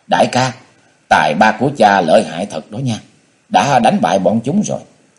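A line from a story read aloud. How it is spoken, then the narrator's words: Cheerful, delighted. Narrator (Vietnamese): Tỉnh Thục cũng hớn hở nói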